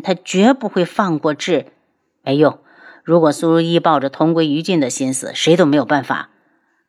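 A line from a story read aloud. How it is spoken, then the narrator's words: Low, somber voice. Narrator (Chinese): 楚清瑶声音低沉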